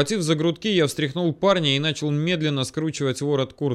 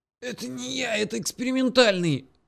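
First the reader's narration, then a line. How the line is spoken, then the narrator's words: Half-strangled wheeze. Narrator (Russian): засипел полузадушенный Боря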